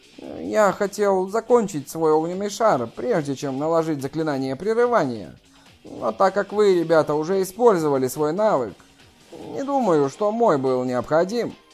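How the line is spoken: Quiet mutter. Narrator (Russian): Заклинатель тихо пробормотал

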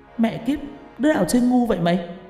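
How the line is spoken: Startled loud shout. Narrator (Vietnamese): Linh giật mình ngồi dậy hét lớn

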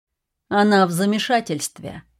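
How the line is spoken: Flat, impassive voice. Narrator (Russian): сказал Гриффин Кленси все тем же бесстрастным голосом

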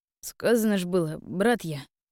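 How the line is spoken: Young man grumbling. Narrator (Russian): буркнул парень

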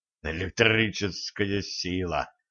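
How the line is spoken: Irritated spitting. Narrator (Russian): раздраженно сплюнул Середин

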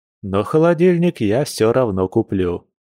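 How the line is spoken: Mocking reply. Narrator (Russian): насмешливо отозвался волк

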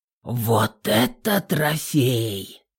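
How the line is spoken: Hoarse, strained. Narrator (Russian): сипло выдавил Горинов

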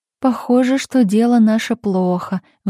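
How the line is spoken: Sighing. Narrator (Russian): вздохнула Марина

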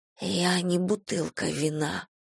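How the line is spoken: Whisper. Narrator (Russian): прошептала я

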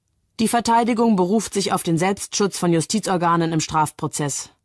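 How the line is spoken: Loud formal statement. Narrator (German): sagt Richter Hutschneider laut

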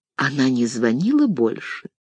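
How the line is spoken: Sudden whispered question. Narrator (Russian): неожиданно шепотом спросила

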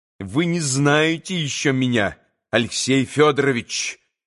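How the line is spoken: Menacing. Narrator (Russian): грозно сказала

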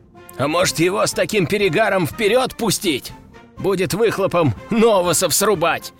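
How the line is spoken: Laughing soldier. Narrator (Russian): хохотнул кто-то из бойцов

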